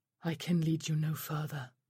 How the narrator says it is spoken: Sharila said wearily

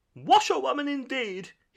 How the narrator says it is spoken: he shouted recklessly

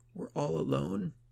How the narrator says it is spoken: Yadith sobbed quietly

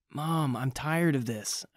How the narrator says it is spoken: I groaned

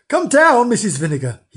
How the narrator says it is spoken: he cried

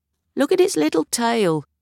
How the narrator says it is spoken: he'd say, and laugh

